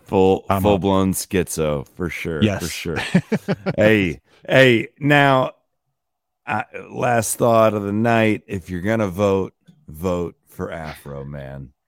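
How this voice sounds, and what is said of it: Worn-out, hoarse voice. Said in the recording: “My voice is shot.”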